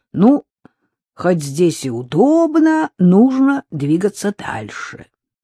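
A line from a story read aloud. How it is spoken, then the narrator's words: Resigned drawl. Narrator (Russian): обреченно протянула Надежда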